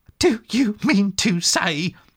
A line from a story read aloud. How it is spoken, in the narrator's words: cried the excited rat